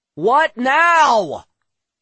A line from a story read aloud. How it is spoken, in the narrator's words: shouted